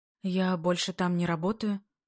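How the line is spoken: Hoarse reply. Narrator (Russian): Хрипло отвечаю

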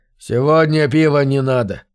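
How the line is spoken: Weary. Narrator (Russian): устало сказал шериф

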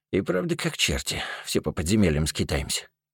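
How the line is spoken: Grumbling. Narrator (Russian): буркнул Яхрип

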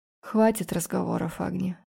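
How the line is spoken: Hoarse dragon voice. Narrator (Russian): проговорил дракон хриплым голосом

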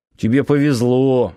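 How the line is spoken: Grumbling. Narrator (Russian): буркнул Нанос

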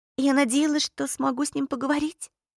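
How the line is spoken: Barely audible whisper. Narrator (Russian): едва прошептала Поппи

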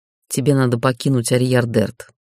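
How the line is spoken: Plain. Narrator (Russian): сказал некромант

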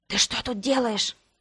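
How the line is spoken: Whispered question. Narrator (Russian): шепотом спросил мой начальник

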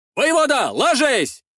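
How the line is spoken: Shouted. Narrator (Russian): выкрикнул Гаврун, десятник из отряда Стояна

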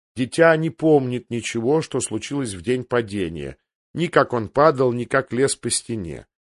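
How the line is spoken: Gentle. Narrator (Russian): мягко проговорил мейстер Лювин

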